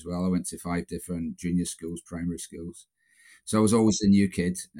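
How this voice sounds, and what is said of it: Scottish accent. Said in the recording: “my accent, you can probably tell I'm Scottish”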